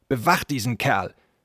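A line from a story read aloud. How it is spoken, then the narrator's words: Snapped gruffly. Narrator (German): schnauzte er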